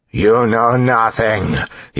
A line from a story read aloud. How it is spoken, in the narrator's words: he bellowed